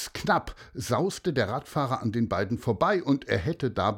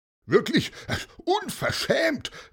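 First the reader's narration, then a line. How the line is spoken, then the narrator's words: Annoyed shout. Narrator (German): rief verärgert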